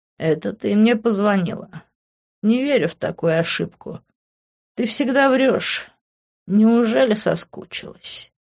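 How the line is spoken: Purring. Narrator (Russian): Промурлыкал он

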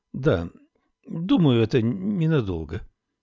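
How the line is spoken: Uncertain. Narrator (Russian): неуверенно произнесла Камилла

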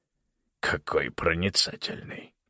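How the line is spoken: Mutter. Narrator (Russian): пробормотал

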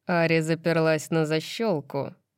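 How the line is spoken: Insinuating, silky voice. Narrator (Russian): тем же вкрадчивым голосом сообщил Тарион

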